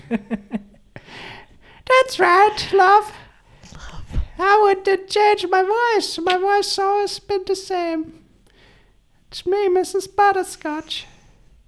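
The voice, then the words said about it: Put-on character voice. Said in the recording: “Mrs. Butterscotch's voice has changed ... she is clearly the most beloved character on the show”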